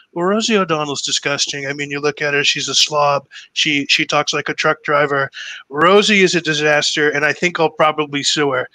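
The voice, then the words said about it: Donald Trump impression. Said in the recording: “I had always done his impression ... good Trump impression ... doing that impression nonstop”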